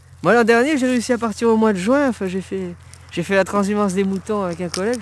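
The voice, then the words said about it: Southern French accent. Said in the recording (French): “à l'accent du Sud”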